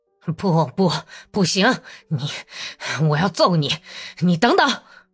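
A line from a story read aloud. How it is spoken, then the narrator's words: Breathless, panting. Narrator (Chinese): 索尔达托夫气喘吁吁地说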